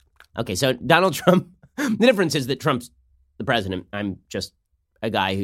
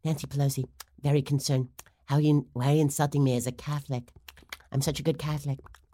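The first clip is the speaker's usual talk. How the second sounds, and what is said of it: Imitates another person's voice, slipping dentures. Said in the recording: “do my Nancy Pelosi impersonation, ... it's basically about her dentures slipping around in that mouth”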